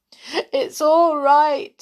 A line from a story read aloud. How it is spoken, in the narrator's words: sobbed Silky